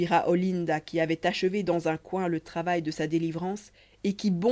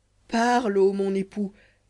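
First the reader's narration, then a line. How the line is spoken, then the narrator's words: Young woman exclaiming, smiling angelically. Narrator (French): s'écria la jeune grecque avec un sourire angélique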